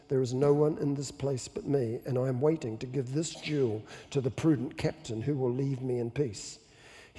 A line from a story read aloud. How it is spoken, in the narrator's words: He held the soldier silently for an instant and then said in a low voice